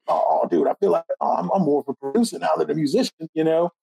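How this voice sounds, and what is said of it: Raspy imitated voice. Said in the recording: “Mark's raspy voice, my good Mark impression.”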